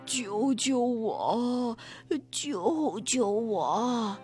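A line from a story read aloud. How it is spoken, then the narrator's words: Hoarse pleading voice. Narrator (Chinese): 那个沙哑的声音又在说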